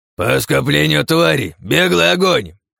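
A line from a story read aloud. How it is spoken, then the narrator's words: Growl. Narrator (Russian): тут же прорычал Сандерс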